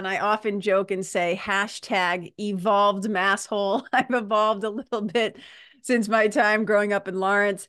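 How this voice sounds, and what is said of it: Massachusetts accent. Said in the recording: “heard my accent ... yeah, but that accent ... I grew up in Mass.”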